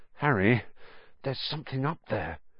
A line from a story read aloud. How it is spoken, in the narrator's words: said Ron hoarsely